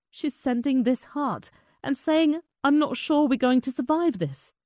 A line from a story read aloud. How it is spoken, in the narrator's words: Ido sobbed as he reread a message from his cousin Hadass Calderon in Kibbutz Neir Oz